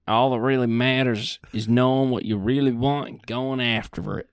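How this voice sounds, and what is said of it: Imitates another person's voice. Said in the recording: “your best Sean accent ... That's perfect.”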